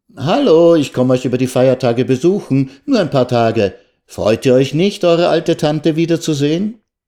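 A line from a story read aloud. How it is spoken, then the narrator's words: Aunt on mobile phone. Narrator (German): Diese Tante rief vielleicht mit ihrem Mobiltelefon an und sagte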